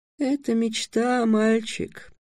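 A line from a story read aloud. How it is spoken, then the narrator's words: Sad. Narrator (Russian): печально сказал четверг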